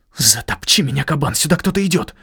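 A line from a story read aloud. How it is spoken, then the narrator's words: Hissing. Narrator (Russian): прошипел я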